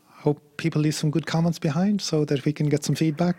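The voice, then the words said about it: Irish accent. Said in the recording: “a white guy with an Irish accent.”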